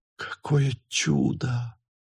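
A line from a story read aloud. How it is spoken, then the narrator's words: Whispered. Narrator (Russian): прошептала она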